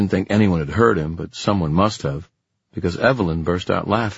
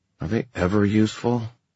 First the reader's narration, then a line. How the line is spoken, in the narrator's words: Kit muttered under his breath